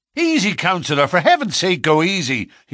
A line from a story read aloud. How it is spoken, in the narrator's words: he cried